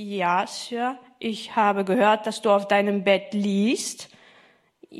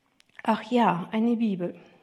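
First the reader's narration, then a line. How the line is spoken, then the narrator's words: Tired captain. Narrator (German): sagte der Kapitän müde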